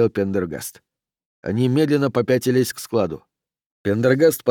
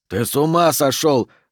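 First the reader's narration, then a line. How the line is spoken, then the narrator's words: Barking shout. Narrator (Russian): гаркнул Деагоста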